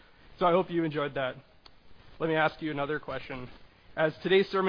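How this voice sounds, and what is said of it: Usual voice. Nothing is said of it.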